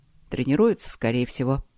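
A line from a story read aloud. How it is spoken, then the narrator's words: Calm reply. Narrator (Russian): спокойно ответил Трот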